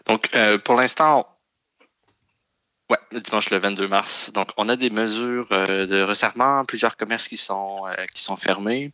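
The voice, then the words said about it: Québécois French accent. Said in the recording (French): “un invité avec accent ... avec ton accent, on l'a tous deviné. est en banlieue de Montréal.”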